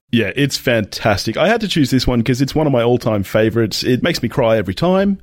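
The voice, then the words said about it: Australian accent. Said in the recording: “accent, he is another Australian guest”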